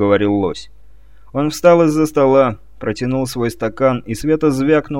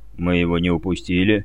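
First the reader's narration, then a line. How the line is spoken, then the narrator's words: Quiet speech. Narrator (Russian): негромко проговорил лось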